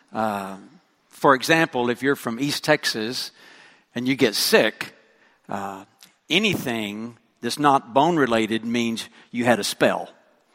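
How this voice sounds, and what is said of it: West Texan accent. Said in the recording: “I need to begin with an apology for my accent. ... I speak West Texan.”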